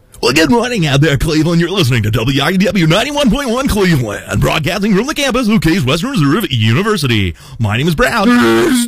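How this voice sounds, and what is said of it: Commercial radio announcer voice. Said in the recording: “That's my impression of commercial radio.”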